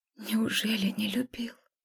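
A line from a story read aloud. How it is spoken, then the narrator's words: Lost, whispered mumble. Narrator (Russian): Шепотом потерянно пробормотала я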